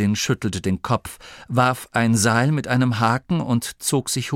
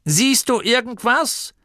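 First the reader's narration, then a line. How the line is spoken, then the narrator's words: Called from below. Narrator (German): rief Gurda von unten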